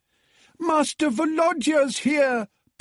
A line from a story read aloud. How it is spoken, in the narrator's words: bawled Natalia, the cook